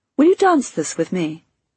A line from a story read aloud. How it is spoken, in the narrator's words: said in a really nice voice